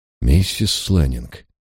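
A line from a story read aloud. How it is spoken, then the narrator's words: Quiet call. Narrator (Russian): тихо позвал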